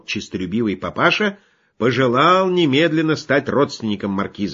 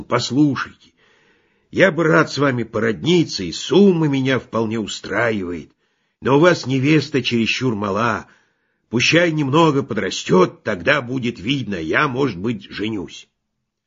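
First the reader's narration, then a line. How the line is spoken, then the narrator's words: Hoarse voice. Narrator (Russian): он, наверное, говорил папаше-спекулянту сиплым голосом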